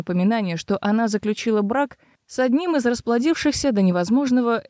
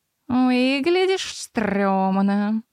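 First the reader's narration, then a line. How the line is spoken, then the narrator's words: Purring. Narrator (Russian): промурлыкал Лир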